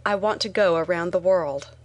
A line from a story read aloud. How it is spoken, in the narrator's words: I blurted out